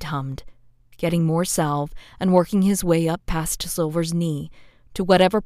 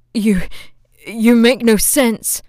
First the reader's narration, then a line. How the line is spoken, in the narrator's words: Silver gasped out, his chest heaving